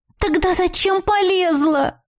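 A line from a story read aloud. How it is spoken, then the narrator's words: Moaning. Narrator (Russian): простонала я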